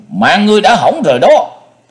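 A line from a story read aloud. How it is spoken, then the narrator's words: Furious monster roar. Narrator (Vietnamese): Giận quá quá cuồng, độc giác thần trùng hét lớn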